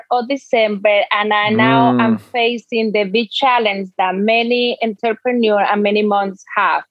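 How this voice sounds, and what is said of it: Dominican Spanish-accented English. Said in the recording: “You have an accent, and it doesn't sound like you're from New Jersey ... your accent is from somewhere else, maybe south of the U.S. somewhere ... I'm actually from the Dominican Republic”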